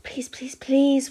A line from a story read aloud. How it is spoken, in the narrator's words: whispered Bron